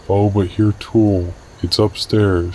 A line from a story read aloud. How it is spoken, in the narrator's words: murmured